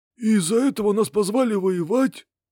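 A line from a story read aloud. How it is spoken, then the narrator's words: Hoarse question. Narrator (Russian): Сиплым голосом спросил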